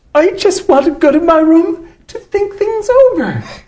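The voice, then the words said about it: Imitates another person's voice. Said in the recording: “I'll do an impression”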